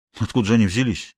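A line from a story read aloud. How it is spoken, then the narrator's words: Puzzled mutter. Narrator (Russian): недоуменно пробормотал он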